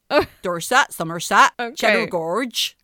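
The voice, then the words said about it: Imitates another person's voice. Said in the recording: “That's my George Michael impersonation... He had foreign accent syndrome”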